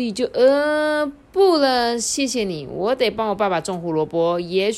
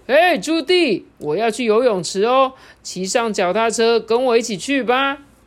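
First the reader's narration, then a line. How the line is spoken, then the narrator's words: Loud shouting. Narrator (Chinese): 他的朋友奎培西呀……大声喊着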